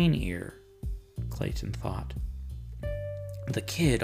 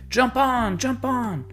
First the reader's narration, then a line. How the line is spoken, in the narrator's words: a tall kid in a dirty white tank top jumped into the car, wedging himself between the closing doors, and shouted